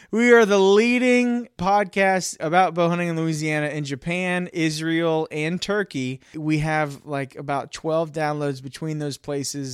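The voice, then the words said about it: Mixed half Southern American accent. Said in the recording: “my convoluted half Southern accent.”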